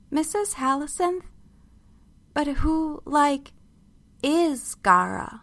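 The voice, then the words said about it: Thin, slow, reading-like voice. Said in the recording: “my voice was thin, slow, as if I were reading from a page.”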